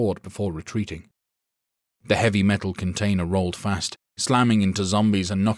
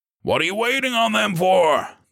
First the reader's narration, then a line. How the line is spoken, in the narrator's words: the sergeant barked